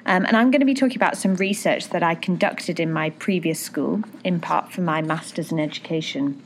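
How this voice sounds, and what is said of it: British accent. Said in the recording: “as you can probably tell from my accent, I'm British”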